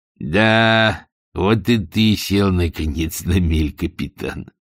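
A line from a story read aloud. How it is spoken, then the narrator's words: Quiet spiteful vengeful laugh. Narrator (Russian): сказал Каузак и рассмеялся негромко, злобно и мстительно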